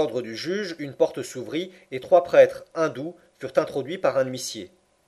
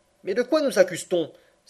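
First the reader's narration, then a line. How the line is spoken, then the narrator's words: Impatient exclamation. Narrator (French): s'écria Passepartout, impatienté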